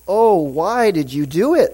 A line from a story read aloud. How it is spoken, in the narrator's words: They groaned